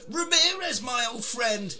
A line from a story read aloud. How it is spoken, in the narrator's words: He exclaims, old man McLeod, as he's getting battered by porcupine people